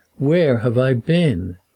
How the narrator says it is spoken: his mild moan

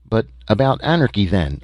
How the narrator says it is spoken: I stammered

